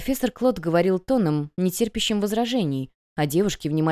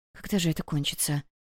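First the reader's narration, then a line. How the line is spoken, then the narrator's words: Muttered. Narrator (Russian): пробормотала Вивин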